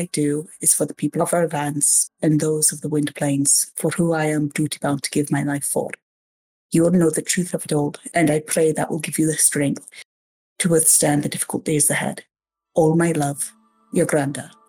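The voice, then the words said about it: Good put-on brogue accent. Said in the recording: “you do a very good brogue”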